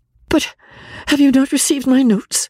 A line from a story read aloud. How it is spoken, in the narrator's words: cried Marianne, in the wildest anxiety